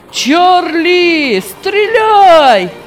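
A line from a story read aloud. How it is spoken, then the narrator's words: Shouting. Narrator (Russian): кричал он владельцу соседнего дома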